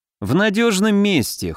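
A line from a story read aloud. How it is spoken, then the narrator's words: Snort. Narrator (Russian): хмыкнул Алёша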